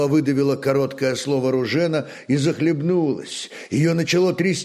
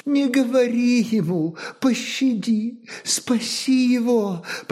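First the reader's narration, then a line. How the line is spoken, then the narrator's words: Moaning plea. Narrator (Russian): простонала Ружена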